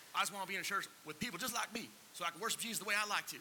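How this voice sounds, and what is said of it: Put-on Southern US accent. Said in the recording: “they always have a southern accent”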